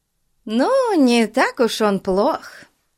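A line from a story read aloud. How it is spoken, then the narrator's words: Cheerful reply. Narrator (Russian): весело отозвалась миссис Коклз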